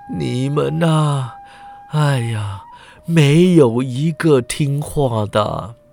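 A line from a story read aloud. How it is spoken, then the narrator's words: Tongue-tied sighing. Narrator (Chinese): 柳成风张口结舌，摇头叹道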